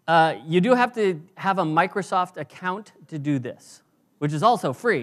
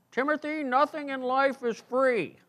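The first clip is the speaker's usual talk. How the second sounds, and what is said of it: Impression of speaker's dad. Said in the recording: “That was a pretty good impression of my dad, actually.”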